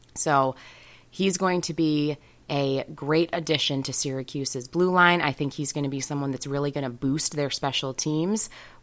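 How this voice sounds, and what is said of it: Scratchy voice. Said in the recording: “my voice is a little bit scratchy ... everybody in school is getting sick”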